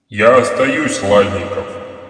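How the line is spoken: Unnaturally loud, amplified. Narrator (Russian): Голос Виктора прозвучал неестественно громко, словно усиленный гигантскими динамиками

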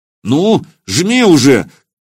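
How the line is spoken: Shout. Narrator (Russian): крикнул Илья

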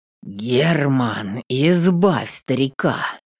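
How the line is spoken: Father's warning through teeth. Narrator (Russian): Предупреждающе цедит сквозь зубы батя

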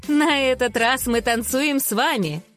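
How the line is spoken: Laughing woman. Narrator (Russian): засмеялась она

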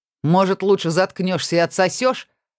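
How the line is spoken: Mocking man's question. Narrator (Russian): Насмешливо поинтересовался один из мужиков

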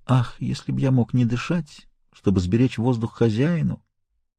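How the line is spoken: Whispering. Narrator (Russian): он шептал

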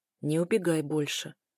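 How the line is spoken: Quiet steely voice. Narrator (Russian): тихо проговаривает стальным голосом

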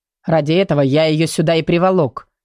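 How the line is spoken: Grumbling giant. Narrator (Russian): пробурчал гигант

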